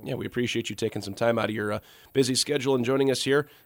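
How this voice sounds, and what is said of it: Slightly raspy voice. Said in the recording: “You can tell the voice is a little raspy”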